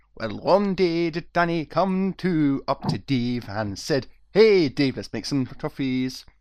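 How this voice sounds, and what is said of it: Weak put-on Irish accent. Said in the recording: “sing an intro in an Irish accent ... this isn't much of an Irish accent”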